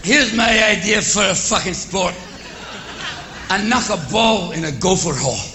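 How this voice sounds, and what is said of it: Exaggerated put-on Scottish accent. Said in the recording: “Robin Williams, in his best Scottish accent”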